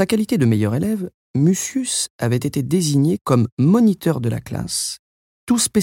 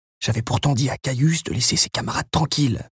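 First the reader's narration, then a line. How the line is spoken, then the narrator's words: Bad-tempered grumbling. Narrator (French): grommela Mucius avec humeur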